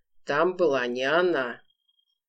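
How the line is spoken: Cold commanding voice. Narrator (Russian): приговорил холодным властным голосом

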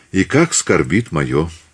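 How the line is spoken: Quiet reply. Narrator (Russian): тихо ответил Репнин

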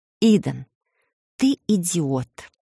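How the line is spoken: Quiet emotional hiss. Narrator (Russian): тихо шикнула я, не сумев сдержать эмоции

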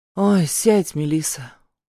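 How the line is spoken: Tired pleading. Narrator (Russian): Усталым голосом просит Тань

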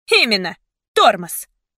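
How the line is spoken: Sharp. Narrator (Russian): резко сказала она

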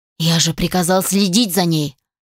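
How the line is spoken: Irritated. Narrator (Russian): раздраженно сказал

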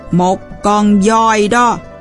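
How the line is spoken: Old man's nasal highland voice. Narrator (Vietnamese): ông lão sẽ trả lời bằng giọng mũi của người thượng du

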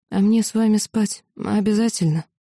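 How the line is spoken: Sighing. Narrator (Russian): Он вздохнул

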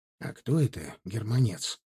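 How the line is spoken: Whispered question. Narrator (Russian): шепотом поинтересовался я у Знаменского, поскольку господин полицеймейстер продолжил принимать рапорты у своих приставов

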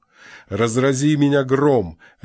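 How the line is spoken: Roaring with laughter. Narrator (Russian): ревел маркграф, сотрясаясь от хохота

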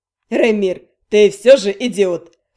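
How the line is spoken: Scoffing snort. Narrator (Russian): хмыкнул Эликс

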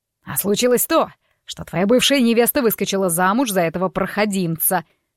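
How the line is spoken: Barking father. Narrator (Russian): рявкнул папа

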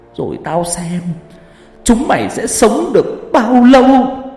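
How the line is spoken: Straining, chilling hiss. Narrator (Vietnamese): bà này dùng hết sức bình sinh, rít một câu ghê rợn

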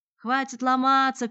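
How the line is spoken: Crowd shouting. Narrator (Russian): кричали одни

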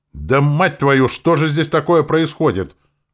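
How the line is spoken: Surprised yelling. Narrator (Russian): удивленно заорал этот недоумок

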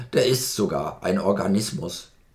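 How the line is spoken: Geyser grunting. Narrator (German): grunzte der Geysir

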